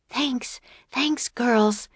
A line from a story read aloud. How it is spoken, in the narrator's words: said Annie, panting